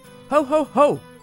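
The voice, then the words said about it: Loud yelling ho ho ho. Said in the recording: “It sounds like I'm yelling.”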